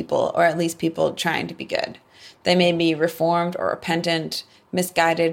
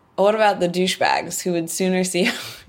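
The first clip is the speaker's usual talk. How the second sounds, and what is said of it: Bad put-on English accent. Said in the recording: “I can try this in my bad English accent.”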